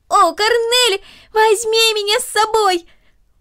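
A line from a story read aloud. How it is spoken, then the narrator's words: Increasingly loud shouting. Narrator (Russian): Макс кричал все громче и громче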